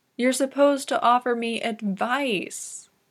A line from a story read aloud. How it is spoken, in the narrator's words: says pleadingly